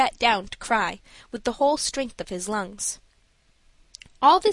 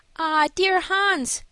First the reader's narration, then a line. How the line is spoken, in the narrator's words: cried Alice